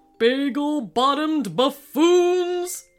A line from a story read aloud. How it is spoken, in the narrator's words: shouted King Mallard